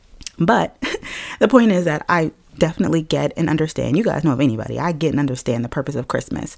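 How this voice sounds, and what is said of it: Strained voice, losing it. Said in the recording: “I'm losing my voice right now”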